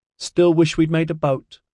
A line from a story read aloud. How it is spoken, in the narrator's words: Orion asked cheerfully